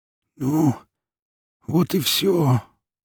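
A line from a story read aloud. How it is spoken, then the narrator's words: Hoarse rasp, awkward smile. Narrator (Russian): прохрипел с нелепой улыбкой Шава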